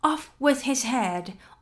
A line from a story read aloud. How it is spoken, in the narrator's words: the queen was in a furious passion and went stamping about and shouting